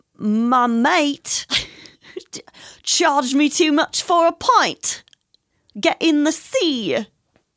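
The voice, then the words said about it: Poor attempt at British accent. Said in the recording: “But like British ... No, that was horrible.”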